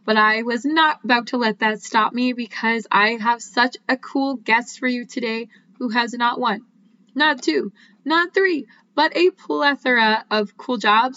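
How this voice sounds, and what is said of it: Voice affected by illness. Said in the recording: “You can probably tell that I'm a little bit under the weather, hence my voice is not what it normally is”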